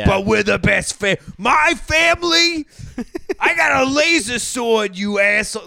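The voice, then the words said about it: Ray Liotta impression. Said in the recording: “you just did an impression of Ray Liotta in Wild Hogs.”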